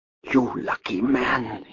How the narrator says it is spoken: whispered

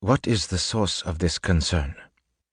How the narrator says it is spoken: he whispered

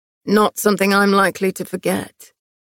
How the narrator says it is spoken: he replied dryly

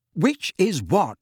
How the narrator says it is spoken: said Harry impatiently

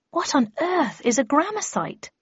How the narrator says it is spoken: asked, looking nervously about

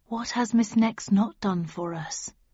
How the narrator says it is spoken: he intoned quietly

